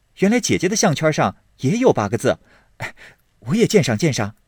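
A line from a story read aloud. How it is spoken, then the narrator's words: Quick, laughing reply. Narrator (Chinese): 宝玉忙笑道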